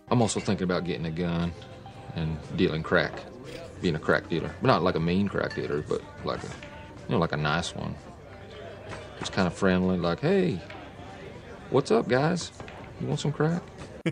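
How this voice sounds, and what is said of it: Will Ferrell doing Southern accent. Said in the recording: “Feral with a Southern accent ... he does a better Southern accent than Brad Pitt”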